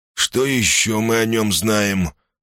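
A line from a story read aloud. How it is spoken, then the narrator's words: Plain. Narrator (Russian): спросил он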